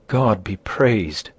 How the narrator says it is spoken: exclaimed the trembling aunt

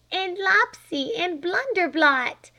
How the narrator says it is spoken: cried Flame

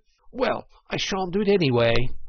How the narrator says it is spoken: cried the Toad, getting excited

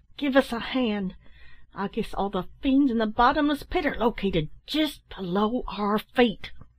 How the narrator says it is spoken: cried

